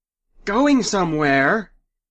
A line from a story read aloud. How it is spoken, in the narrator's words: Lenora shouted